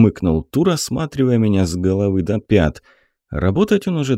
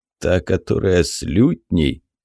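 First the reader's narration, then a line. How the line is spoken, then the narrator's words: Chuckling. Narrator (Russian): хохотнул Тур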